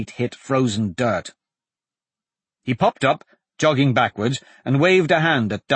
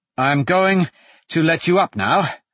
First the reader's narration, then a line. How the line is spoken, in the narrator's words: Dante panted